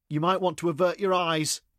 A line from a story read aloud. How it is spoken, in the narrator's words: he shouted